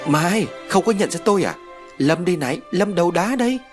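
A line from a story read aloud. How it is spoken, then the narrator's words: Laughing loudly. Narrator (Vietnamese): Lâm cười lớn rồi nói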